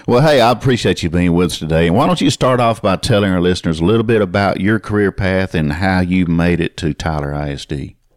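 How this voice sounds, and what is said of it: East Texas twang accent. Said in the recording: “get that East Texas behind the pine curtain twang ... You don't have that NPR voice ... my East Texas dialect”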